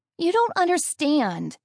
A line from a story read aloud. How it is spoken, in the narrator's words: Amy whined